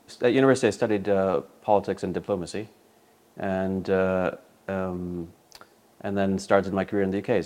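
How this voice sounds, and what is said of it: East Coast American accent, British-softened. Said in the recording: “a very odd accent ... an East Coast accent, uh, rather modified by having li- lived an awful long time in the UK ... taken a few of the uh, of the American twang down a bit”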